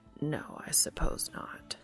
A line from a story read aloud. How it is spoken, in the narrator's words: Castiel whispers